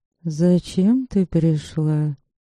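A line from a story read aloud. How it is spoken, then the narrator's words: Muffled voice. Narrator (Russian): Голос ее звучал глухо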